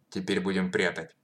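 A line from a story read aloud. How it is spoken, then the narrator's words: Plain. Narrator (Russian): сказал Панков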